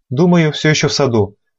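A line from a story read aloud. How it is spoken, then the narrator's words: Uncertain. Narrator (Russian): неуверенно ответил слуга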